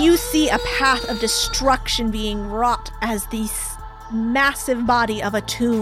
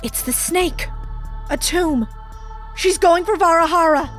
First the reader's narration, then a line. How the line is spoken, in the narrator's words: Ava gasps and she says to you